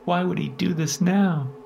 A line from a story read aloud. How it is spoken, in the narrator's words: Diana whimpered and sobbed, breaking down more and more